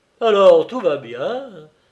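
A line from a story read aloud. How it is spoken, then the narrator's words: Joyful exclamation. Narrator (French): s'écria le grand limier d'un air joyeux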